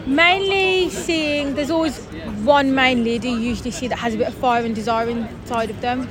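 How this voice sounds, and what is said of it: Birmingham accent. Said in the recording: “Your accent is... from ... Birmingham ... near Dudley, as you can tell, because my accent.”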